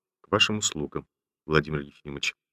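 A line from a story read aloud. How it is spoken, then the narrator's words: Falsely casual, trembling voice. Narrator (Russian): ответил Ромашов с фальшивой развязностью, но дрогнувшим голосом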